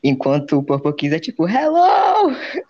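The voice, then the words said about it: High-pitched imitated singer's hello. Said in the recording (Portuguese): “imitando o hello do Purple Kiss ... high note”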